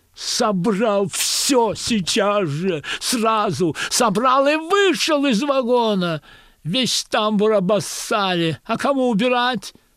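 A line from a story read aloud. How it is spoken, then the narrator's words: Hysterical female screaming. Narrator (Russian): истошно вопит проводница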